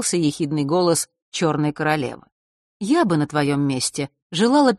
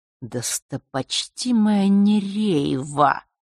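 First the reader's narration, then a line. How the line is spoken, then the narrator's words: Hiss. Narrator (Russian): прошипел Нортон-старший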